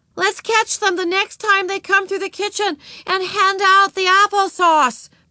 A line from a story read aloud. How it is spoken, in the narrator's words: Beezus shouted back